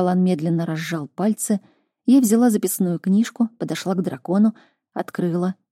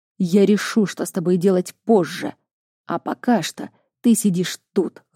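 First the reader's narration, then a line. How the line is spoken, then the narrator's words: Growled. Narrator (Russian): рыкнул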